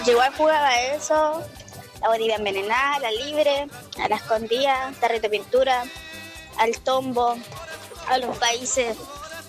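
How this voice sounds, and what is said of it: Childlike little girl voice. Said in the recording (Spanish): “¿por qué tenés voz de niñita?”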